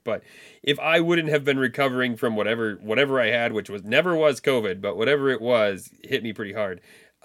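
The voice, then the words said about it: Voice still affected by illness. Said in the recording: “I was still recovering like all weekend. And you can still hear it in my voice.”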